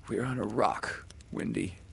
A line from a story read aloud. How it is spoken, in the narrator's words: he said